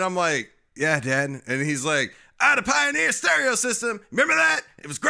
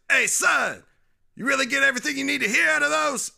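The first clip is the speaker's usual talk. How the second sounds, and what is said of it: Imitates another person's voice. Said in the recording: “when I do an impression of my dad, he sounds like DMX”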